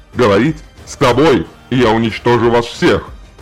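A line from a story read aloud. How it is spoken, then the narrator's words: Furious roar. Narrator (Russian): взревел Желиман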